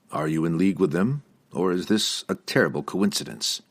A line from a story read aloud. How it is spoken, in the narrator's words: Drizzt asked dryly